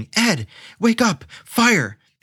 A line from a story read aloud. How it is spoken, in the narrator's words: someone screaming